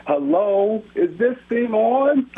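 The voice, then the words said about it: Impression of host Rob. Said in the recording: “my Rob impression”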